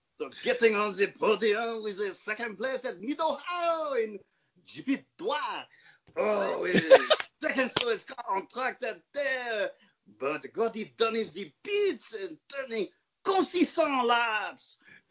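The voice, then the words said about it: Put-on French accent. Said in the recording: “I really want to do like a great, like, Kiwi accent. ... But I suck at those, so I'm just going to make them French.”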